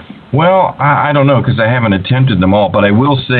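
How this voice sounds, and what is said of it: Usual voice. Nothing is said of it.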